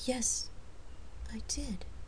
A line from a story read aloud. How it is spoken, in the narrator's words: She said quietly